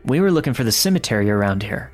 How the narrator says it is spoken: my girlfriend said

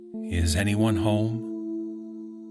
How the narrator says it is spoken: mockingly but quietly uttering

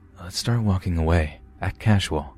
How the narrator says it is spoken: R whispers

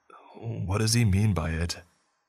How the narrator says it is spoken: I asked in a panicked, frantic voice

